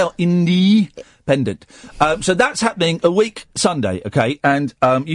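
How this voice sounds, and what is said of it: Usual voice. Nothing is said of it.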